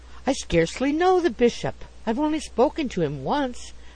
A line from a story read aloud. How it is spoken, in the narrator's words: exclaimed J